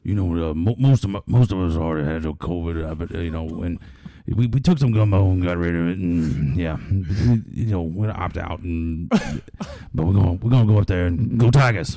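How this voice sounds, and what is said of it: Impression of Ed Orgeron. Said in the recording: “his Ed O impression”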